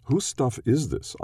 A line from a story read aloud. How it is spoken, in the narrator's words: asked